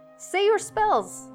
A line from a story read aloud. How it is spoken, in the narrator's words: shouted